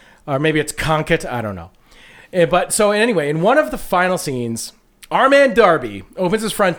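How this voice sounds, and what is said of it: Usual voice. Nothing is said of it.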